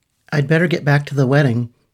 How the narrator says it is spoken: said Patrick

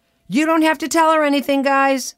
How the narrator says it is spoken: my husband would yell from the other room

